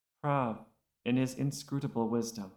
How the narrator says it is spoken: Shizik murmured

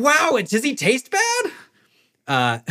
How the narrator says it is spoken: yelling after you and like clearly in awe and admiration

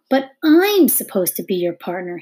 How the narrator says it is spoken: suddenly cried

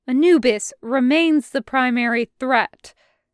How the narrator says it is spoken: loud and clear

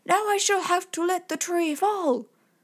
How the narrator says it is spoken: The giant, could go no further, and cried

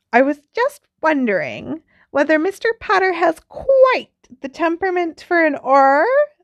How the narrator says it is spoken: said Professor Umbridge sweetly

